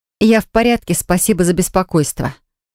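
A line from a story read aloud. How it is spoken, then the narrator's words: Cold thanks. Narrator (Russian): холодно поблагодарила я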